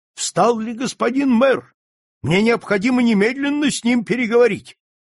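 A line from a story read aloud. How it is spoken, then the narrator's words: Hurried shout. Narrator (Russian): почтальон крикнул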